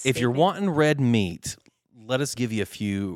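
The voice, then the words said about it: Regional accent slips out. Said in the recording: “Did you hear your accent come out there?”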